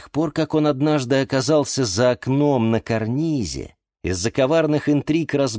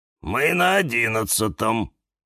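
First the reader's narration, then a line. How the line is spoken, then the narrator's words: Gloomy cactus. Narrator (Russian): мрачно сказал кактус Кирилл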